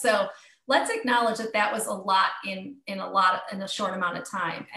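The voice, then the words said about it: Speaks with a noticeable accent. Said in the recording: “I love your accent so much.”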